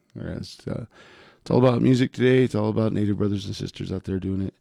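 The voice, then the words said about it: Rough, hoarse voice. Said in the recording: “Voice is a little rough ... It's not my regular radio voice”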